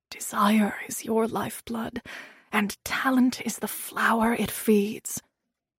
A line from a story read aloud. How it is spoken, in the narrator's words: Hyacinth whispering in my ear